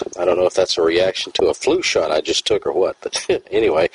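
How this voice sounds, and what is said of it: Voice with a slight cold. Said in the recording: “I've got a little bit of a cold.”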